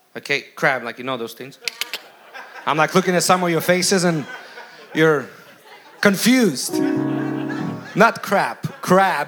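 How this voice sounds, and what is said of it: Speaks with a noticeable accent. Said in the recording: “when I get too excited, my accent sometimes slips up”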